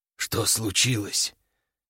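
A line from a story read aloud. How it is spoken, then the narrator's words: Quiet hoarse wheeze. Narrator (Russian): тихо прохрипел Буйвол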